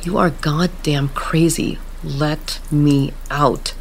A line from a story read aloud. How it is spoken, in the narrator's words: Erin said through gritted teeth